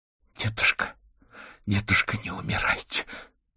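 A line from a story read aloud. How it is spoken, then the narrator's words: Numb, frightened whisper. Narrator (Russian): онемевшими от холода и страха губами шептала чародейка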